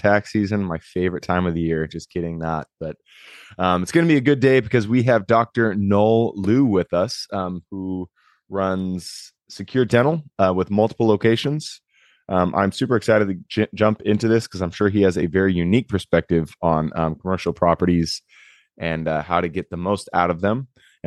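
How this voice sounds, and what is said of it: Slightly altered voice from illness. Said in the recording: “I have been kicking a cold. ... my voice sounds a little bit different”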